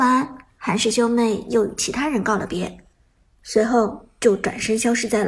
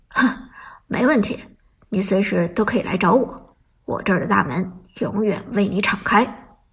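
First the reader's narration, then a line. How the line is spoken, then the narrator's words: Smiling. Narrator (Chinese): 韩小军笑着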